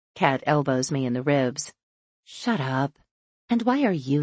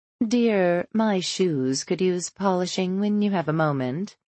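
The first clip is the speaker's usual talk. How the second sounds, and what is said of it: Imitated genteel, posh accent. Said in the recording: “Adopting Elizabeth's genteel accent”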